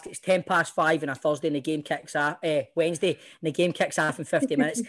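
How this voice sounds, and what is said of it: Very fast speech. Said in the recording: “I'm talking really fast.”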